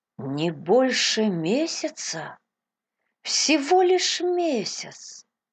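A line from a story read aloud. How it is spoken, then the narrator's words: Heavy-hearted repetition. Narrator (Russian): повторял Кристи, с тяжелым сердцем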